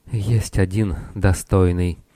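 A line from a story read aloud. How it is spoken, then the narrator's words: Weak, trembling voice. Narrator (Russian): она ответила слабым и дрожащим голосом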